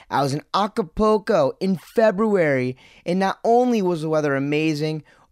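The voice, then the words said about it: Excited, pumped-up voice. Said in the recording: “I'm totally pumped up right now. I think you can hear it in my voice.”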